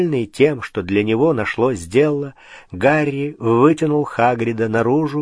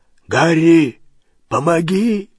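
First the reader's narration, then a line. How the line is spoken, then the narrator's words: Hoarse call. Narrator (Russian): хрипло позвал Хагрид из двери, в которой он снова застрял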